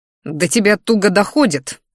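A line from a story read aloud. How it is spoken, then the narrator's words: Growled. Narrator (Russian): рыкнул я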